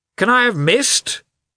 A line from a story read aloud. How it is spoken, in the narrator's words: cried Oblonsky